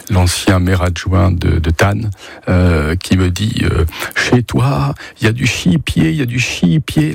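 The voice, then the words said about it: Imitated strong regional French accent. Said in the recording (French): “L'accent très prononcé”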